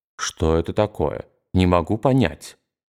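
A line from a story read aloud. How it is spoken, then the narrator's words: Puzzled muttering. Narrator (Russian): бормоча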